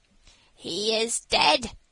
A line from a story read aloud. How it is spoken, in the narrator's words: said the magpie, with a croak